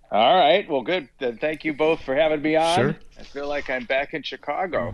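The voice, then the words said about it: Chicago accent with flat A. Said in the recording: “my accent is already creeping back. ... That flat A. ... you never think you have an accent when you're from Chicago.”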